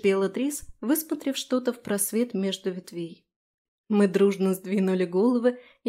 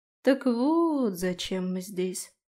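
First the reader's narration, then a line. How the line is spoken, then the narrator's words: Drawling. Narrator (Russian): протянула я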